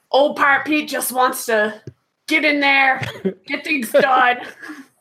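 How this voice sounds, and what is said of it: Pirate character voice. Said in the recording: “you gotta do it in pirate ... in my pirate voice ... Pirate voice.”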